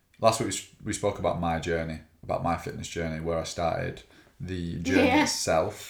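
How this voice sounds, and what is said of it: Hoarse, worn-out voice. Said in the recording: “I was singing many, many songs at the top of my voice last night is why my voice is now ... gone.”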